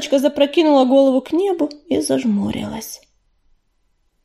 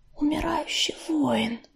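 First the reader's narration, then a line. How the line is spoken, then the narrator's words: Whispered. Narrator (Russian): прошептала Белочка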